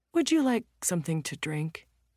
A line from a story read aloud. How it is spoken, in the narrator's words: he asks kindly